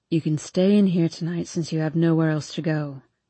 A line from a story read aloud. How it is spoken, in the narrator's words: he says quietly